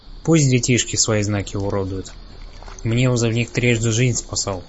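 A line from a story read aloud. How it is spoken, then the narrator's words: Calm reply. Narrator (Russian): Игорь спокойно ответил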